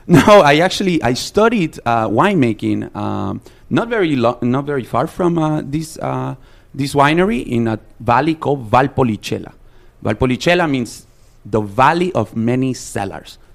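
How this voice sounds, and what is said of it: Authentic, strong foreign accent. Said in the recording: “your accent, I wish there was like a Google voice with your accent, because your accent is so amazing ... It's terrible ... No, it's beautiful ... your voice is incredible ... It's actually authentic”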